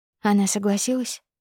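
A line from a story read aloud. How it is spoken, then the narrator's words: Quiet question. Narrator (Russian): спрашиваю тихо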